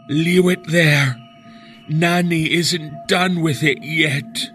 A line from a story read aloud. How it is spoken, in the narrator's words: said, in an unnatural rasp that wasn't her own